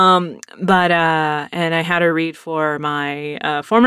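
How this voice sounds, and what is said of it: Usual voice. Nothing is said of it.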